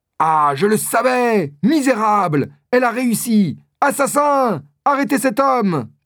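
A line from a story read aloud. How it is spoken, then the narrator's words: Shouting. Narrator (French): crie Winter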